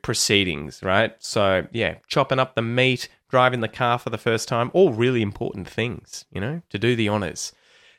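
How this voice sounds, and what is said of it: Australian accent. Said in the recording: “do your best to copy my pronunciation and get that Aussie accent”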